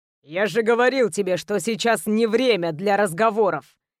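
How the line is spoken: Growled through clenched teeth. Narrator (Russian): прорычал сквозь стиснутые зубы

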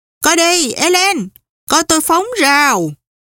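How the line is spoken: Loud shout. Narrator (Vietnamese): ba cô hét to

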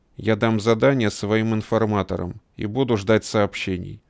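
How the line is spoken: Dry. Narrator (Russian): сухо сказал Иорданидис

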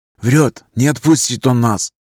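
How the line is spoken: Whisper in ear. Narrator (Russian): зашептал на ухо

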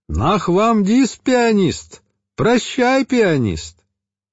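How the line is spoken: Children shouting from windows. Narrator (Russian): дети кричали из открытых окон

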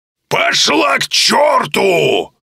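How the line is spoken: Deafening full-throated shout. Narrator (Russian): Крикнул во все горло, и я чуть не оглох

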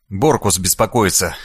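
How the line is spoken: Wry snort. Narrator (Russian): хмыкнул я

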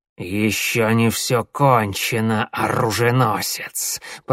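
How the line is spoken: Hissing cat. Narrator (Russian): прошипел сумрачный кот

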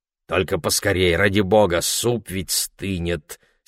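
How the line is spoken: Angry grumble. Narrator (Russian): сердито пробурчал Ларри

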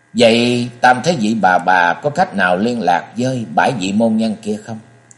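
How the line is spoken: Weary, suppressed sigh. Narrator (Vietnamese): Du Hiệp cố giấu tiếng thở dài ngao ngán

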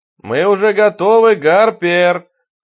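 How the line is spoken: Shouting toward another room. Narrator (Russian): крикнул он в сторону кухни

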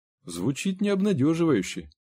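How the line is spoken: Quiet. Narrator (Russian): тихо сказал Генри

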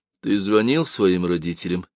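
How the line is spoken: Lifeless voice. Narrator (Russian): спросила Лиз безжизненным голосом

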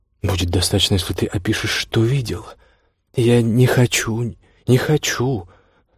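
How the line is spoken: Muttering through loudspeaker. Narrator (Russian): Бормотал из репродуктора его и в то же время не его голос

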